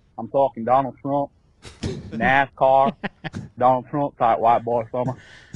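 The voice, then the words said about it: Good put-on Southern accent. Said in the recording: “he did a good accent. ... he did a great accent. ... he did a pretty good southern accent.”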